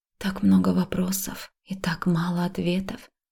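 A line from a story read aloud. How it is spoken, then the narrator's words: Irritated whisper. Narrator (Russian): прошептала, чувствуя, как внутри нарастает раздражение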